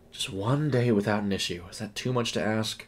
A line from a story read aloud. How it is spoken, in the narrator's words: she mumbled